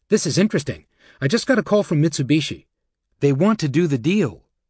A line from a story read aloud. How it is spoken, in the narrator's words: Jonathan Kindred said excitedly